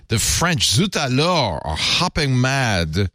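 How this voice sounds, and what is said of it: Put-on French accent. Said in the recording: “about my accent.”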